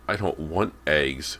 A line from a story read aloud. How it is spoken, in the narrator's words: Cody was saying irritably